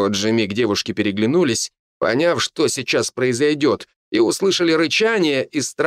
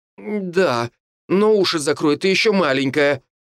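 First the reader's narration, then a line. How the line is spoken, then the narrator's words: Embarrassed exclamation. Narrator (Russian): воскликнула уже красная от стыда девушка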